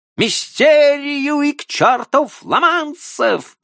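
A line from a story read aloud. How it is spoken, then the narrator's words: Shouted at full lungs. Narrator (Russian): крикнул он во всю силу своих легких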